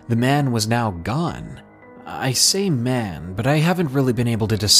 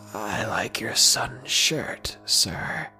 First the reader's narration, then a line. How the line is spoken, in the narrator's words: said in that wheezy voice from before